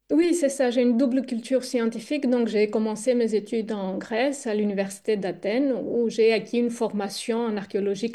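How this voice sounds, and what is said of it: Greek accent speaking French. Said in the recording (French): “votre délicieux accent. On se doute que vous venez de Grèce.”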